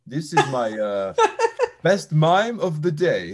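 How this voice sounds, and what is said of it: Bad put-on French accent. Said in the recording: “that was the worst French accent. That was borderline insulting”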